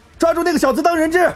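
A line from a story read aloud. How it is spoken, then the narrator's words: Shouting. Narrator (Chinese): 齐恒大喊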